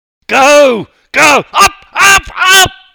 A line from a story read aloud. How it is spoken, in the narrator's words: I screamed